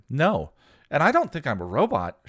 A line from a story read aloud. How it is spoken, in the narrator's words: she replied in the same cheerful voice